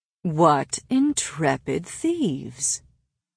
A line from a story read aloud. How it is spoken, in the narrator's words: he drawled, the words everywhere and nowhere